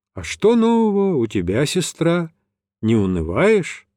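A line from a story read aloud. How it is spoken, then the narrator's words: Plain. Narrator (Russian): спросил я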